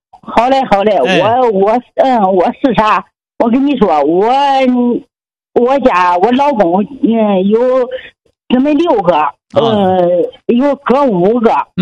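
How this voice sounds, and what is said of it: Heavy regional Chinese accent. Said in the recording (Chinese): “您说话口音比较重”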